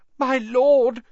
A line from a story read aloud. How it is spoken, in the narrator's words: gasped the man on the floor